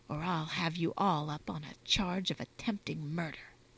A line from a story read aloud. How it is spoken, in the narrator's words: Constance added in a lower but firmer tone